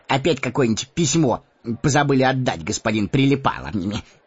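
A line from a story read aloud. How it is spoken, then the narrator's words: Sarcastic question. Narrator (Russian): ехидно спросил Мэри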